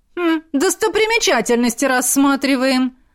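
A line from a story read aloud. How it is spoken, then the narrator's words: Gargoyle's sharp bark. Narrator (Russian): рявкнула горгулья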